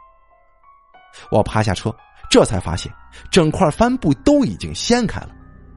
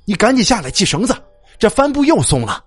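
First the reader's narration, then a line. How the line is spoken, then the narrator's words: Shouting. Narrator (Chinese): 他喊道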